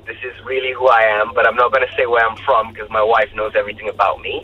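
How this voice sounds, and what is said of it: South African accent. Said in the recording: “Let's just sound South African. ... No, this is my accent. ... I'm South African now.”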